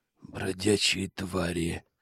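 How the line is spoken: Hoarse rasp. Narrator (Russian): прохрипел я

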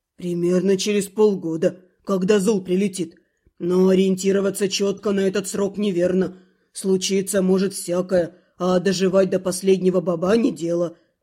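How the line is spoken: Grumbling. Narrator (Russian): бурчал гриф

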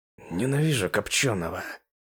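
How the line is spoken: Quiet. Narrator (Russian): тихо поделился мыслью Пако

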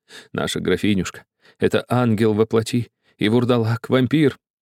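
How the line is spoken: Sobbing again. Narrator (Russian): снова зарыдал

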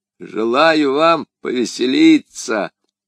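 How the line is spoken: Sepulchral voice. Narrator (Russian): отвечал Бонасье за могильным голосом

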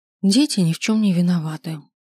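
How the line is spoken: Heavy sigh. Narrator (Russian): тяжело вздохнула

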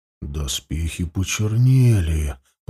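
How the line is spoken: Whisper. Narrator (Russian): прошептал Ауранг

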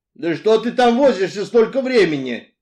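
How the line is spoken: Irritated shout through keyhole. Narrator (Russian): раздраженно крикнул он в замочную скважину

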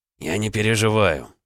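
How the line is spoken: Through gritted teeth. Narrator (Russian): ответил ей Олег сквозь зубы

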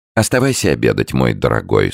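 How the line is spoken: Plain. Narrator (Russian): сказала Виннифрид

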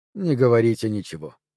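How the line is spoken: Soft, gentle. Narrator (Russian): мягко произнес Легарек

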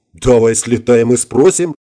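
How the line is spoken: Giggling. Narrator (Russian): хихикнула Иришка

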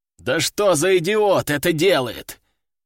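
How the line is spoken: Commander's growl. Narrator (Russian): рыкнул командир

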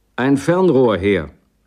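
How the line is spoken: Shouting. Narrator (German): rief John

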